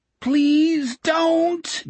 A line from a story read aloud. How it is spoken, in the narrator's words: Jack wailed